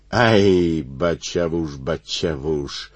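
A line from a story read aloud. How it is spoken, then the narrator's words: Singing in a disguised voice. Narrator (Russian): запел не своим голосом лазутчик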